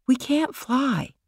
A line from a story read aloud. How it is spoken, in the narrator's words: said quietly